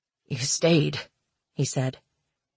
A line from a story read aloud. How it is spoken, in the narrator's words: his voice raspy in her ear